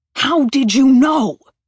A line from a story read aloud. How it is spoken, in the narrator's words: yelled